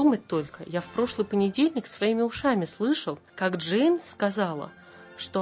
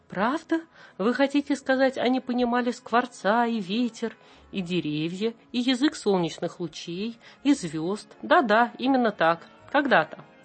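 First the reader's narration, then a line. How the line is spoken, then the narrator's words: Plain. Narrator (Russian): сказала Мэри Поппинс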